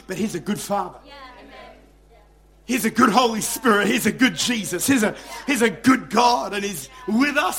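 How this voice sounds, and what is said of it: Excited, loud yelling preaching voice. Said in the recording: “I know I'm excited this morning. I know I'm yelling a little bit.”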